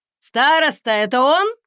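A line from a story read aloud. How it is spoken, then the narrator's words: Shout. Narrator (Russian): Редвин крикнул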